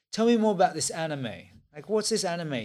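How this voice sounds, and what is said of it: Put-on English accent. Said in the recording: “I'm trying to do his English accent.”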